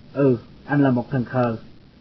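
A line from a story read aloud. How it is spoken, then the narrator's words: Sighing. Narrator (Vietnamese): Tôi thở dài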